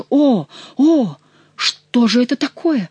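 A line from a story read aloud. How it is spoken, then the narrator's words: Exclaimed. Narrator (Russian): воскликнул герцог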